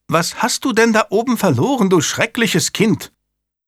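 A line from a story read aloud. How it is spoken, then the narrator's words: Called out. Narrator (German): rief die Gouvernante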